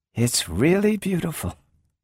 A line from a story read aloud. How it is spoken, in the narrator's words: she sighed